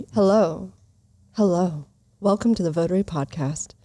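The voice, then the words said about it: Polished podcast host voice. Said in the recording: “I've been practicing my podcast voice. ... You had a really good one the other day.”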